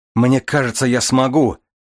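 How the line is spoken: Elated shout. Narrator (Russian): крикнул Дар, опьяненный иллюзией свободы

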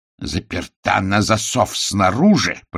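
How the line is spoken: Growled. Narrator (Russian): прорычал он

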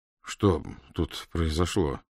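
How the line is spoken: Strained forced words. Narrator (Russian): выдавил он

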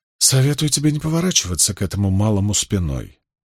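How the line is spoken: Quiet. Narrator (Russian): негромко сказал

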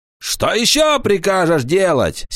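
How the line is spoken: Angry shout. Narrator (Russian): сердито закричал Паламброн

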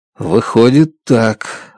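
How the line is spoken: Confused mutter. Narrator (Russian): растерянно бормочу я

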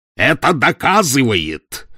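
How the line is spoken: Sudden furious roar. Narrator (Russian): вдруг проревел он в приступе ярости

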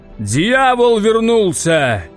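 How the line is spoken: Booming deep voice. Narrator (Russian): прогудел большой папа

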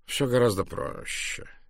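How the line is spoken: Gentle. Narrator (Russian): мягко покачал головой Пуаро

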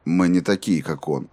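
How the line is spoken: Even voice. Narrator (Russian): ровным голосом ответил Роланд

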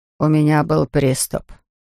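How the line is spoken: Muttered. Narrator (Russian): пробормотал он

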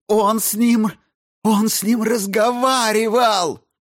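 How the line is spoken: Wailed. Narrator (Russian): взвыла Дженсен

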